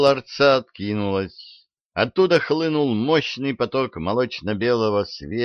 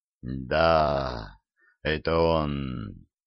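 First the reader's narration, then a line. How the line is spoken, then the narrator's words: Lustful sigh, dark being. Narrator (Russian): вожделенно вздохнул сгусток тьмы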